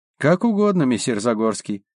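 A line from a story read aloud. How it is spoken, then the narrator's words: Gloomy. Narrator (Russian): мрачно сказала она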